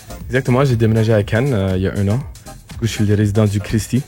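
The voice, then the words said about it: Canadian accent in French. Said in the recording (French): “Quel beau petit accent. Tu es canadien, c'est bien ça?”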